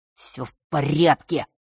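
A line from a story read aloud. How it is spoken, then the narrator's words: Muttered through teeth. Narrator (Russian): процедил тот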